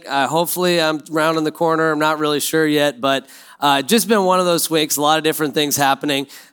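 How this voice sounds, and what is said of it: Sick-sounding voice. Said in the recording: “You probably hear it in my voice. I'm sick.”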